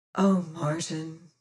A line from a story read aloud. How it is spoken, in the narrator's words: sighed